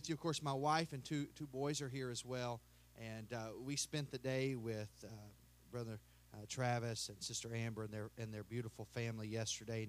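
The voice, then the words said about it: Kentucky Southern American accent. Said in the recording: “my accent it sounds like I'm maybe from Canada, but I'm from Kentucky”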